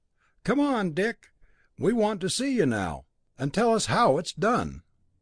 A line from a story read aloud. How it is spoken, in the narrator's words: The senior Arcot began laughing heartily, he stopped and called out